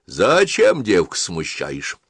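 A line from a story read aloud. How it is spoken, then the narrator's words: Stern. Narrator (Russian): строго сказала Анна Сергеевна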